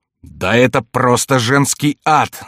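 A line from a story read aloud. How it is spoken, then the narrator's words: Wailing yell. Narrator (Russian): завопил Коконна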